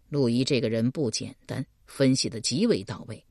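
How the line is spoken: Low voice. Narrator (Chinese): 邓毅低声道

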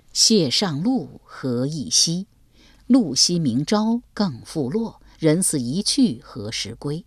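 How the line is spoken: Mournful clear singing. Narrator (Chinese): 曲调哀婉，歌声清越

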